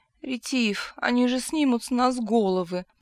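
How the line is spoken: Moaning. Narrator (Russian): простонал

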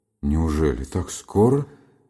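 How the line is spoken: Muffled, hollow voice. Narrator (Russian): спросил глухим голосом Бобров

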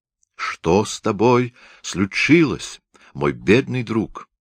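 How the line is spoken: Exclaimed. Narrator (Russian): воскликнул Шмуке

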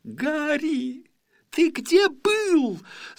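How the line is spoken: Two voices shrieking. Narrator (Russian): завизжала Гермиона вместе с Роном

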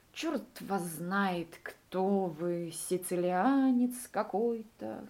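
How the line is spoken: Sleepy. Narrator (Russian): сказал он сонно

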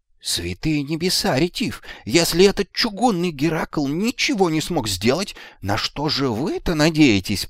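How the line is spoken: Squeaky voice from corner. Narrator (Russian): пропищал из своего угла Магнан

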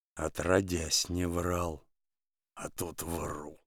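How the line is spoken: Mumbling. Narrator (Russian): бормочет Денис

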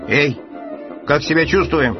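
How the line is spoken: Shouting, Martian. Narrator (Russian): крикнул первый марсианин

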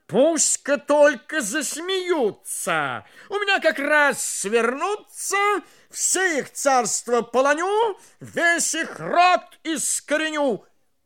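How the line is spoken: Angry king's shout. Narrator (Russian): Царь со гневом закричал

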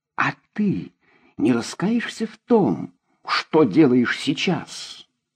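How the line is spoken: Quiet. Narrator (Russian): Она заговорила тихо

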